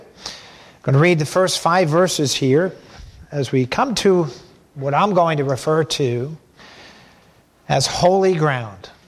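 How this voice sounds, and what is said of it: Slightly scratchy, hoarse voice. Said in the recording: “my voice is a little scratchy this morning”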